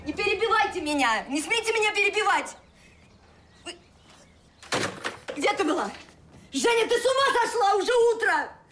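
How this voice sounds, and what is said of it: Shouting. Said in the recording (Russian): “Не кричи.”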